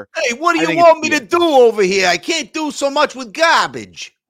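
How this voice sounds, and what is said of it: Comic mob boss impression voice. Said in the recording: “Bill's got that accent ... our worst Bill Belichick impersonation ... a comic cliche mob boss”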